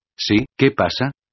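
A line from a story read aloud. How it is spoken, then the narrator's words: Plain question. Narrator (Spanish): preguntó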